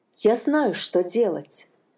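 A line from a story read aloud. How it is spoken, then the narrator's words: Plain. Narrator (Russian): сказала находчивая Анна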